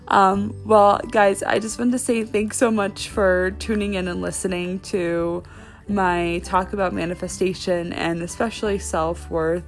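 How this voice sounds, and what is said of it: Slightly raspy voice. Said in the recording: “I'm a little bit raspy”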